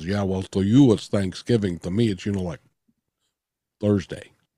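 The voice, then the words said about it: Sylvester Stallone impression. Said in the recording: “that your Sylvester Stallone impression?”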